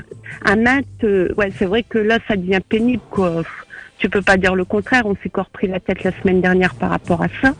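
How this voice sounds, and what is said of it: Ch'ti northern French accent. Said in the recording (French): “Il a reconnu l'accent ch'ti”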